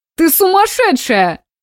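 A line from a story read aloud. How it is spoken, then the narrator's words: Laughing shout. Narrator (Russian): Со смехом крикнул Никита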